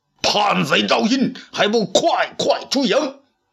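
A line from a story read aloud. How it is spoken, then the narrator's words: Angry, loud. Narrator (Chinese): 公孙敖 不禁大怒，大声说道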